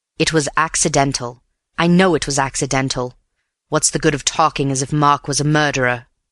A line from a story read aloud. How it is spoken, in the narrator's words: added impatiently